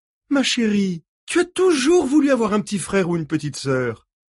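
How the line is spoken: Woman exclaiming. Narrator (French): s'écria-t-elle

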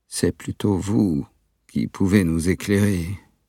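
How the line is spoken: Plain. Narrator (French): dit-il

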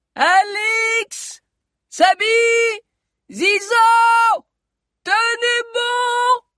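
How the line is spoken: Shouted. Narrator (French): cria encore la voix

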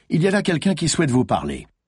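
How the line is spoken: Neutral professional tone. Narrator (French): fit-il d'un ton professionnel neutre

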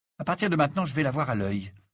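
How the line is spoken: Decided tone. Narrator (French): annonça-t'il d'un ton décidé

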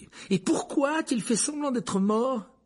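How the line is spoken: Furious exclamation. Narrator (French): s'écria-t-il avec fureur

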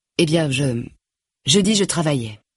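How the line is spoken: Plain. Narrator (French): dit Grace

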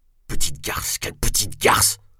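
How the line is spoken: Muttering incessantly. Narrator (French): marmonnait-il sans cesse

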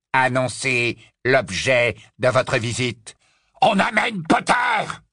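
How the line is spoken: Triumphant roar. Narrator (French): rugit Greyback d'une voix triomphante

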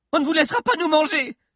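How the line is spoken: Shout. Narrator (French): cria Suzy

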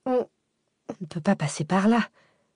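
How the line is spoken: Stammered. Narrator (French): bégaya Cécile

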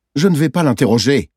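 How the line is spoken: Curt retort. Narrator (French): j'ai rétorqué d'un ton cassant

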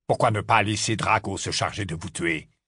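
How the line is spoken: Harsh. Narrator (French): lança Rogue d'un ton rude

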